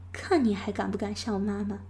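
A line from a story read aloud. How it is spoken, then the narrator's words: Smug laughter. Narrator (Chinese): 呢喃得意的笑着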